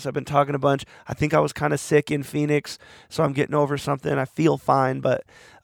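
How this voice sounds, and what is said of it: Strained, fading voice. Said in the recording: “Sorry about my voice. Again, I'm losing my voice.”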